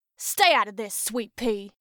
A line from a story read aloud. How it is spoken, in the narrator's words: Eden growled at Chrissy